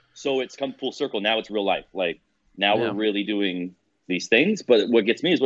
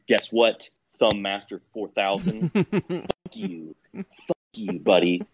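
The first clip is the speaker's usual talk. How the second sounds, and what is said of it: Put-on Canadian accent. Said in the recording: “it's a good Canadian, good Canadian accent there”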